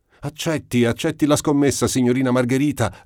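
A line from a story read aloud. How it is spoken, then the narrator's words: Group shouting encouragement. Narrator (Italian): gridammo tutti incitando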